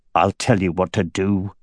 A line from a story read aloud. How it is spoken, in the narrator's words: he growled